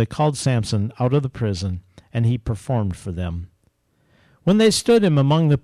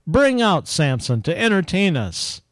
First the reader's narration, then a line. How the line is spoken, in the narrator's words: While they were high in spirits, they shouted